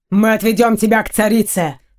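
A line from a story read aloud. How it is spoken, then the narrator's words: Angry man. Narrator (Russian): зло бросил один из мужчин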